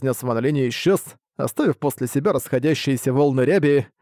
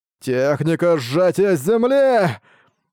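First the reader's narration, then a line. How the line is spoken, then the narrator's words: Piercing scream. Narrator (Russian): пронзительно завопил он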